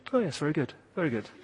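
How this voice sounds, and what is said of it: Mock understated English accent. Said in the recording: “You can't say that in an English voice.”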